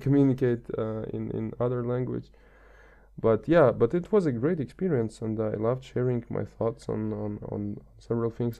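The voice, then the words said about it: Non-native English accent. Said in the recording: “my pronunciation or my accent ... I'm not a native speaker”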